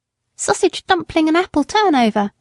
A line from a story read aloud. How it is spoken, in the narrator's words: shouted the boy